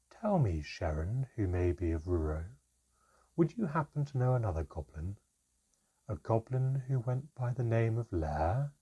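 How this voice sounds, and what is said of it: Ominously calm voice. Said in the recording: “in an ominously calm voice ... continued in its ominous calm”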